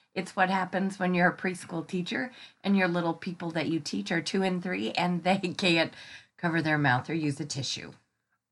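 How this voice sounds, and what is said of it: Stuffy, congested voice. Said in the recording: “I have a cold. ... I'm going to be a little stuffy ... I'm a little stuffy”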